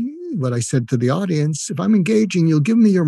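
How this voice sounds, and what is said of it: Usual voice. Nothing is said of it.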